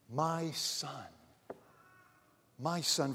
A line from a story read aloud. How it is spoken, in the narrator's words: The father tenderly addresses his son by saying